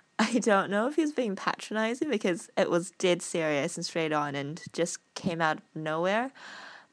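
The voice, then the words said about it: New Zealand accent. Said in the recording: “the non-New Zealand aspects of my accent ... you have a lovely accent ... my New Zealand accent”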